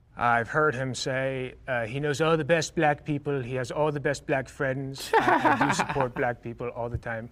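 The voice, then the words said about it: Imitates another person's voice, poorly. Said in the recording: “that was a very bad impression”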